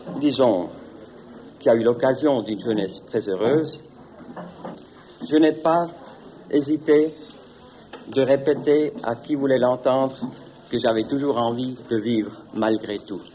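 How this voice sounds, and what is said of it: Slight foreign accent in French. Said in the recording (French): “vous avez un tout petit accent ... Qui n'est pas tout à fait celui du Jura.”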